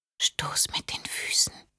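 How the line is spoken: Mother's whisper. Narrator (German): flüsterte die Stimme ihrer Mutter

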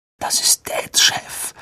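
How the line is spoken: Breathed. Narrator (German): hauchte Ron

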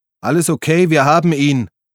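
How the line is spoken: Bellowed. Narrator (German): brüllte Gabi zur Tür

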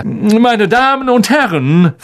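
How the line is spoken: Loud announcement. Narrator (German): verkündete er laut

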